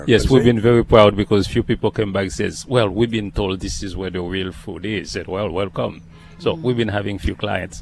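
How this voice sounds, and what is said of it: Haitian accent. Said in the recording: “this beautiful accent ... I'm from originally from Haiti ... it's not going to go away”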